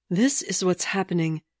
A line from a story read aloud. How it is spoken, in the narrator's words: she breathed back